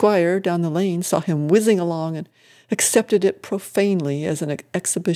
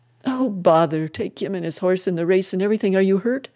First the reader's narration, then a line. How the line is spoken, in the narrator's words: gasped